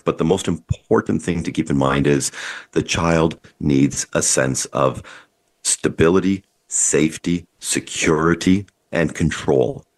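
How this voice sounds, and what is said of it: Sick-sounding voice. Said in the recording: “I apologize for my voice, I'm fighting a cold here”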